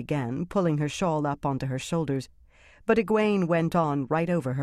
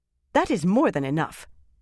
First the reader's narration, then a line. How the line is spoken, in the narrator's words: Kariandra snapped, right atop Egwene's last sentence